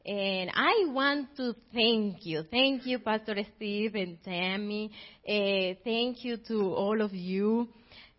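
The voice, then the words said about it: Colombian accent in English. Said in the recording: “I need you to forgive my accent, please... I am originally from Colombia”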